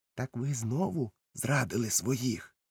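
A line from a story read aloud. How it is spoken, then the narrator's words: Involuntary whisper. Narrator (Ukrainian): Я не втримався і прошепотів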